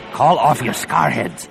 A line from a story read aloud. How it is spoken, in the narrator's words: the Barabel rasped